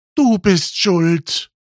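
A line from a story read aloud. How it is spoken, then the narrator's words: Exclaimed. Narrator (German): rief Ellie aus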